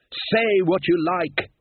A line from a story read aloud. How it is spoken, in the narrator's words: he shouted